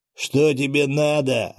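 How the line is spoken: Barked. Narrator (Russian): рявкнул Глыба

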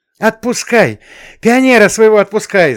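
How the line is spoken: Shouting. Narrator (Russian): заорала Маша

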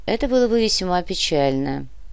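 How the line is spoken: Sigh. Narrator (Russian): вздохнул комиссар

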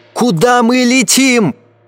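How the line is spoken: Crowd shouting. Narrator (Russian): Салон закричал

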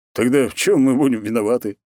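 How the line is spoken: Snort. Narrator (Russian): хмыкнул Морозов

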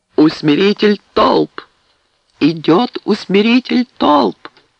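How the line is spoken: Thunderous exclamation. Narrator (Russian): Громовым голосом, разнесшимся по всему кривому проулку, он воскликнул

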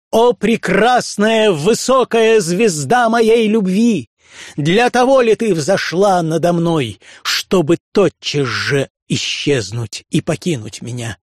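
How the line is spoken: Loud exclamation. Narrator (Russian): он громко воскликнул

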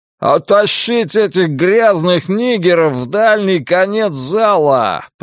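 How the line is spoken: Roaring. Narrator (Russian): проревел Билл Арнольд

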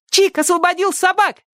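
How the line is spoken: Joyful shout. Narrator (Russian): радостно крикнула Сонька

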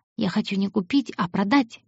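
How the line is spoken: Soft. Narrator (Russian): мягко сказала она

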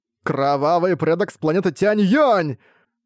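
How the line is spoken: Terrified shout. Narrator (Russian): прокричал Джоу Тянь, чувствуя, как волосы встают дыбом у него на голове

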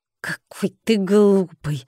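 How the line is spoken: Hissing. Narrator (Russian): зашипела она

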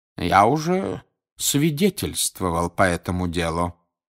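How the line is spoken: Calm. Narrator (Russian): спокойно сказал он

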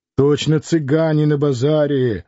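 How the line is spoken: Fairly loud, from behind. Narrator (Russian): довольно громко сказал Турабоев за спиной у Клима

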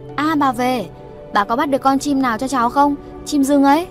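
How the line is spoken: Excited child's cry. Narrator (Vietnamese): Một cái thân người nhỏ thó reo lên nói

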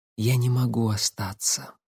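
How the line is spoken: Quiet. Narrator (Russian): так же тихо сказала

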